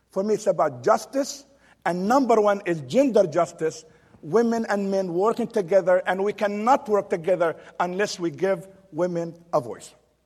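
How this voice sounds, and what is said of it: Heavy foreign accent. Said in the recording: “I do have a heavy accent. ... when I came to America 25 years ago, I first lived in Texas, and that's where I learned my English.”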